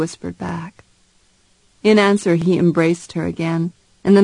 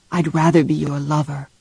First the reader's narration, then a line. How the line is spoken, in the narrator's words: he whispered